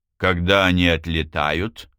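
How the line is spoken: Icy tone. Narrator (Russian): спросила Минья ледяным тоном

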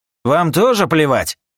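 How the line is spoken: Angry retort. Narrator (Russian): Зло бросил Юджин

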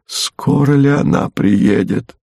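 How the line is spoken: Whispering. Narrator (Russian): он прошептал

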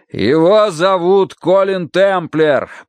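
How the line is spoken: Shouting. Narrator (Russian): прокричал Данворти

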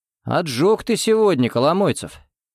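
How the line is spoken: Half-disapproving, half-admiring snort. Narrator (Russian): Не то осуждая, не то восхищаясь, хмыкнул Дмитрий

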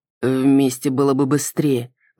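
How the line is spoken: Grumble. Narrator (Russian): проворчал Кроу

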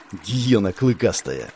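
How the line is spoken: Hissed through teeth. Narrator (Russian): Процедила главарка

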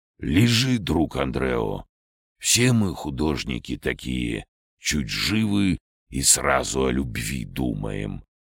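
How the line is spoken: Low hoarse voice. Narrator (Russian): услышал низкий хриплый голос

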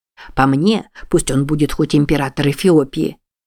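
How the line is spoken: Whisper in broken English. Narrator (Russian): прошептал метрдотель на плохом английском

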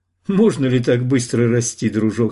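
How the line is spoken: Laughing. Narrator (Russian): сказал смеясь

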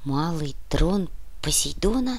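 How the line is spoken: Whisper. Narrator (Russian): прошептал Зябликов

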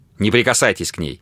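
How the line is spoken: Sharp. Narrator (Russian): резко сказал он Грэхэму

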